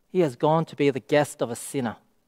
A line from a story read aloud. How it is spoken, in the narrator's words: the crowd, they mutter